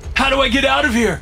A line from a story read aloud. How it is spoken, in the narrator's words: I shout, pain driving my panic